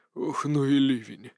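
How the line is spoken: Muttering. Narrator (Russian): бормочет он

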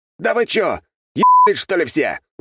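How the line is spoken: Yelling. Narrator (Russian): заорал Жихарев

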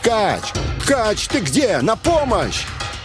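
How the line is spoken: Shout. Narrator (Russian): я закричал

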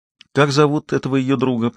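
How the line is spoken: Gentle questioning. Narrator (Russian): продолжал мягко расспрашивать Гектор

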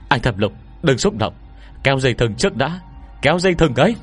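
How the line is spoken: Panicked frightened scream. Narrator (Vietnamese): Cô Nhược Lâm cũng bị dọa sợ, hoảng hốt hét lên

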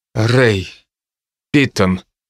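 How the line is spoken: Forced out. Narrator (Russian): наконец выдавил я

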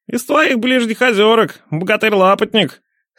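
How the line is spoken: Mocking boom. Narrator (Russian): Насмешливо прогудел сотник

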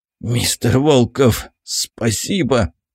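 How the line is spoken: Hoarse, barely alive doctor. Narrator (Russian): прохрипел врач экспедиции, едва осознав, что он жив

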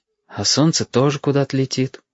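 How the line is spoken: Sighing. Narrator (Russian): вздохнул Стасик

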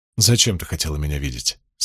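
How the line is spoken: Plain. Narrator (Russian): спросил Ранд

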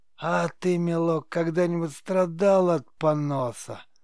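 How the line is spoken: Creaky witch's laughter. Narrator (Russian): Проскрипел ведьмин смех

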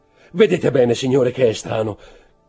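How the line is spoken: Shouted. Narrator (Italian): gridò l'intendente

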